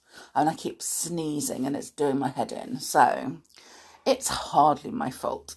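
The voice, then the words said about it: Congested, stuffy voice. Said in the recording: “I've got hay fever, as you can hear by my voice.”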